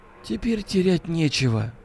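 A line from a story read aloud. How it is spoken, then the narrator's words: Crushed, despondent voice. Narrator (Russian): убитым голосом сказал Акимов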